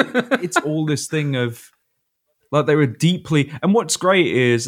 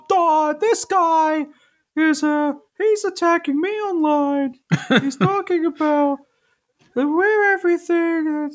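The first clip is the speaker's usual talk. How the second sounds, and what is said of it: Imitates another person's voice. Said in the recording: “my Jordan Peterson impression”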